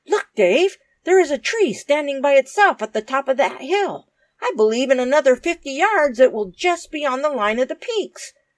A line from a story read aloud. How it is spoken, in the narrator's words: Dick exclaimed suddenly